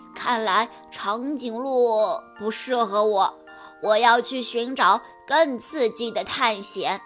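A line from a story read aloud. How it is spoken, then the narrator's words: Musing sigh. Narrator (Chinese): 小猪感叹道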